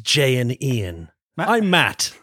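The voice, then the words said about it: Radio announcer voice. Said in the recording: “what's that voice? What is that voice? ... It's radio announcer voice.”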